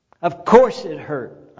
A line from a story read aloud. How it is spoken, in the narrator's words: snapped, misunderstanding, wrapped up in myself